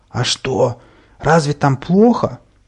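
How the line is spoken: Wheezing, breathless from heat. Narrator (Russian): Задыхаясь от жары и тяжести, я просипел

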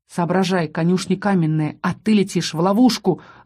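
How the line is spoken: Growled. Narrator (Russian): рыкнул Рос

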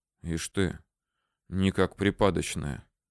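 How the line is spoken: Quiet whisper. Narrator (Russian): шептал негромко

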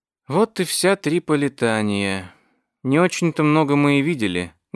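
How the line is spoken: Sad remark. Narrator (Russian): грустно заметила Виктория

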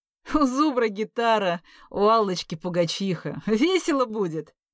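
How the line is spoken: After laughing. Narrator (Russian): отсмеявшись, сказал Лёва

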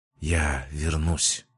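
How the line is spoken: Parting whisper. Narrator (Russian): напоследок шепнула молодая стихия

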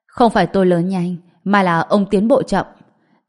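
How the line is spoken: Cold. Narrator (Vietnamese): Trần Bình cũng lạnh lùng nói

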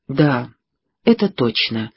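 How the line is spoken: Quiet. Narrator (Russian): тихо проговорила Пэрис

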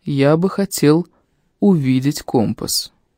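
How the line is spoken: Soft, bearded man. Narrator (Russian): мягко сказал бородач

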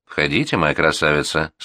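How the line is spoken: Plain. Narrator (Russian): сказал Бюсси

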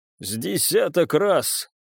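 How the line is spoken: Hoarse reply after pause. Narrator (Russian): хрипло отозвался после недолгой тишины

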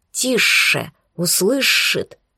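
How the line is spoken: Warning hiss in ear. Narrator (Russian): на ухо предупреждающе зашипели

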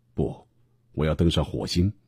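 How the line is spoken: Smiling. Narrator (Chinese): 马斯克笑眯眯地说

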